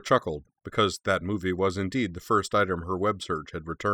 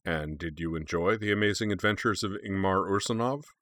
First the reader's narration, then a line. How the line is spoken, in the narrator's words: Ragnarsson asked dryly